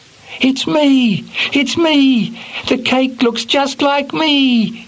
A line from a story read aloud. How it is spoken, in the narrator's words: he cried happily